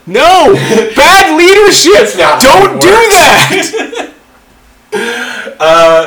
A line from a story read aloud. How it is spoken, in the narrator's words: I just yelled